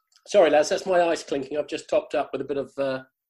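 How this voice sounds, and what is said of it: Yorkshire English accent. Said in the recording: “I just quite like your Yorkshire accent”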